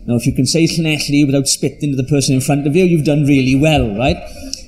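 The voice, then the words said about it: Strong South Welsh accent. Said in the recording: “as you can tell from my accent, from very deep South Wales”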